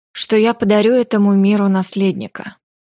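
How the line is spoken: Sighing. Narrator (Russian): Вздохнула Мила

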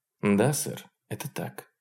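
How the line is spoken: Quiet agreement. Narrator (Russian): согласилась она таким же тихим голосом

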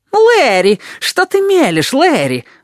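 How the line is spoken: Shrill shriek. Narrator (Russian): взвизгнул он

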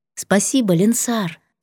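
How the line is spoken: Soft. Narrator (Russian): сказала мягко

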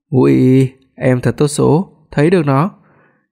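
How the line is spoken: Soft amused whisper. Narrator (Vietnamese): Hoắc Phi Đoạt không nhịn được cười, cúi đầu dán tại lỗ tai cô, mỉm cười nhỏ giọng nói

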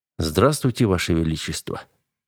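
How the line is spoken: Plain. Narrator (Russian): ответил я

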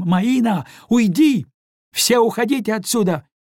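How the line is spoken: Loud shout over another voice. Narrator (Russian): крикнула госпожа Деглемон, стараясь заглушить голос Елены

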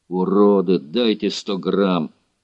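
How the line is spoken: Calm speech. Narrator (Russian): Классик спокойно сказал

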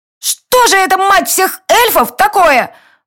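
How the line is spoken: Furious indignant wailing. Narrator (Russian): Возмущенно вопила тень, и ее крохотные щечки окрашивались в бордовый цвет от ярости

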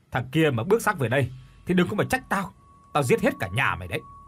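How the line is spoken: Old man, bitter angry shout. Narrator (Vietnamese): Lão cay tức rồi quát

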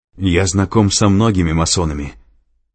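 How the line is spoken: Angry speech. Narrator (Russian): зло проговорил Лэнгдон

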